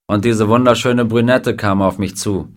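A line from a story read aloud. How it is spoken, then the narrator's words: Plain. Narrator (German): sagte Klein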